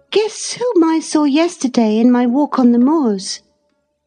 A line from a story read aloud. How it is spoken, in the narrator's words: she exclaimed